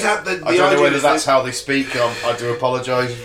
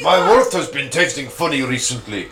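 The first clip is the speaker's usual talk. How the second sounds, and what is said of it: Put-on Russian-sounding accent. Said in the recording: “It sounded a bit Russian.”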